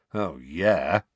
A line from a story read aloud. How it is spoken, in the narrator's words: said Sirius sarcastically